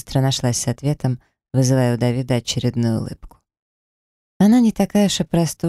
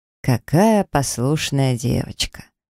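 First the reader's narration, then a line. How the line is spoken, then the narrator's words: Lazy drawl. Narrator (Russian): Давид лениво растягивал буквы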